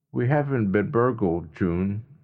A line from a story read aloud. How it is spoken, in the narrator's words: Jeff said evenly